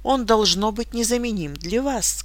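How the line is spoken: Plain. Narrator (Russian): сказала миссис Блэйр

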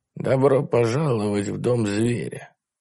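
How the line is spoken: Quiet hoarse reverent. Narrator (Russian): Она произнесла название тихим хриплым голосом, исполненным благоговения

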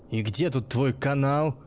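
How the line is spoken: Aggressive bark. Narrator (Russian): рявкнул помнящий, готовясь напасть

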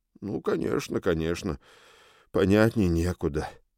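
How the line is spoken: Sighing. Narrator (Russian): вздохнул Обри

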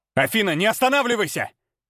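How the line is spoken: Barked. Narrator (Russian): рявкнул я

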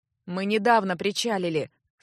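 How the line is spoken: Dry, displeased. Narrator (Russian): сухо и недовольно отозвался второй невидимка

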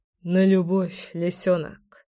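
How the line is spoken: Mumble. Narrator (Russian): пробормотал

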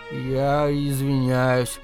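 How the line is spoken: Uncertain. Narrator (Russian): неуверенно произнес Рикки

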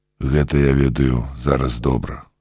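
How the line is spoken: Calm answer. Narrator (Belarusian): спакойна адказаў Рыгор

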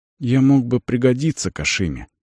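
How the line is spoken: Boy dropping to whisper. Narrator (Russian): голос мальчика упал до шепота

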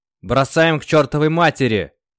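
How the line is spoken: Barked. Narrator (Russian): рявкнул Артем

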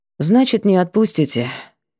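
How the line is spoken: Sad statement. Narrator (Russian): констатировала печально

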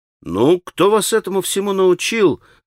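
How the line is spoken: Surprised exclamation. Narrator (Russian): воскликнул удивленный наконец Алеша

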